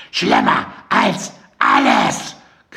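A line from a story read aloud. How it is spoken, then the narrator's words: Shrieking. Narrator (German): kreischte Mandy noch einmal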